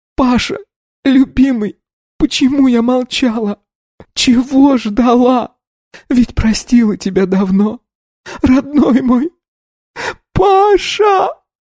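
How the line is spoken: Sobbing. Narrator (Russian): она зарыдала

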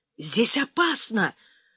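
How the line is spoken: Muffled whisper behind doors. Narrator (Russian): зашептал ракетчик из-за дверей

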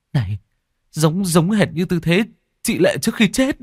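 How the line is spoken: Exclamation. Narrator (Vietnamese): Tôi thốt lên

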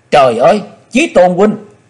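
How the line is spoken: Woman's anguished scream. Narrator (Vietnamese): tiếng thét, hồng y nữ Sảo Nhi

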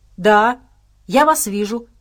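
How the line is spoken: Barked shout. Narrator (Russian): гаркнул Абрамс

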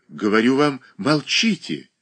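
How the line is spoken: Agitated tone. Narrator (Russian): еще более взволнованным тоном произнесла Катерина Александровна, не помня, что она говорит

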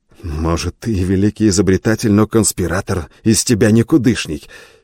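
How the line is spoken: Angry self-talk. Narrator (Russian): сердито сказал себе

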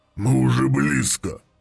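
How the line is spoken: Growled through clenched teeth. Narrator (Russian): прорычал Гурон сквозь сжатые стальные зубы

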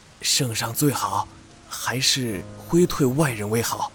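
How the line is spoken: Deliberately low hoarse voice. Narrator (Chinese): 嗓子是特意压低的嘶哑

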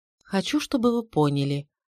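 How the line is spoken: Quiet flat voice. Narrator (Russian): тихим бесцветным голосом говорила Швестер Хенни

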